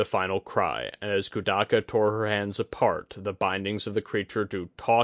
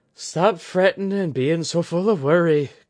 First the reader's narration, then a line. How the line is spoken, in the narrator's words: Kudaka groaned